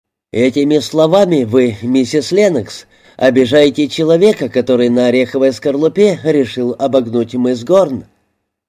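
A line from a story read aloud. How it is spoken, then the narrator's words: Amused after laughing. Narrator (Russian): Линд рассмеялся и сказал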